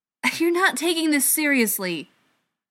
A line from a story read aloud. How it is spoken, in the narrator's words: Ryan exclaimed